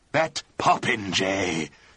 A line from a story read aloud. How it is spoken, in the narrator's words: said Lord Tilbury in a strange, low, grating voice